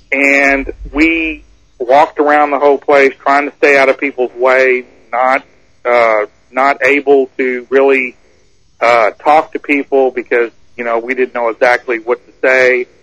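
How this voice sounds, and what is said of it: Texas accent. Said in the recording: “we have Texas accents”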